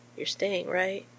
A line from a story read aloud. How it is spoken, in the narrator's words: he asks quietly